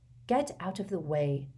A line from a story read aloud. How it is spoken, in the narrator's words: said Harry quietly